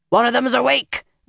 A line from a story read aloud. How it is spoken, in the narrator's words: a man's panicked voice shouted